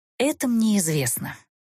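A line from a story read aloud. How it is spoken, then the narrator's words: Soft. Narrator (Russian): мягко сообщила Эста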